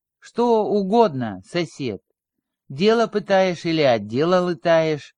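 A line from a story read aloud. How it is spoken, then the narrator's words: Calm inquiry. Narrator (Russian): спокойно осведомился классик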